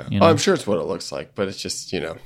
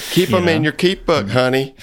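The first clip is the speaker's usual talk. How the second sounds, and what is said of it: Put-on Southern country accent. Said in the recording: “it feels like real, like Southern country”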